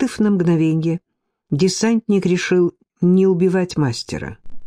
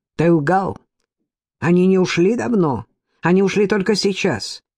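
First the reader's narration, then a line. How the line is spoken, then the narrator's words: Irritated, curt. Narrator (Russian): командир группы раздражённо бросил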